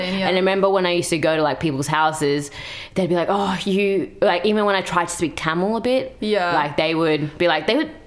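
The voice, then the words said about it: Australian accent. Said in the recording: “I have an Australian accent.”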